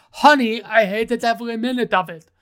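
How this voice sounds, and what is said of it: Bad imitation of a celebrity's voice. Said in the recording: “that's a really bad Arnold Schwarzenegger impression.”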